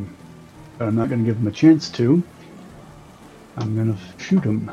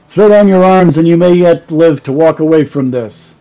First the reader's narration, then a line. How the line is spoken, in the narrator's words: shouting